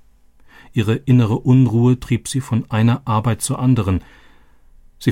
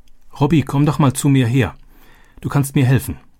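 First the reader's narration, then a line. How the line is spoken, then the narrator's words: Called out. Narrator (German): rief sie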